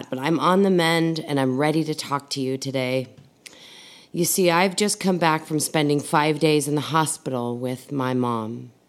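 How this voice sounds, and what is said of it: Sick-sounding voice. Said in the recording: “As you could probably hear in my voice, part of that journey involved me getting sick”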